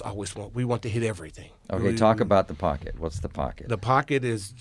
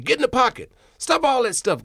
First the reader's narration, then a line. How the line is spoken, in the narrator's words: he would yell at me